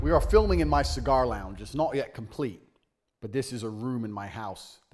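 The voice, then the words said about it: Mixed, hard-to-place accent. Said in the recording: “What the fuck is this accent? It's like three accents in one. ... Is this from like North Ireland or something? ... he's 17% British.”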